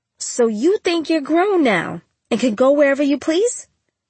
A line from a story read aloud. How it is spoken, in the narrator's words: She snapped